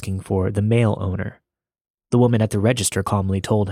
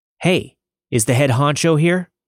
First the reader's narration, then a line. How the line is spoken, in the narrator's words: The shorter guy shouted